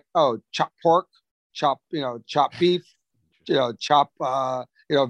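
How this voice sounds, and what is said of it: Imitated strong Chinese accent. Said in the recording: “very strong Chinese accent”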